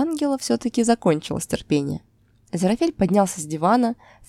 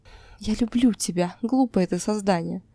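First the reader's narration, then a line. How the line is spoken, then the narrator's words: Whisper. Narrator (Russian): прошептал он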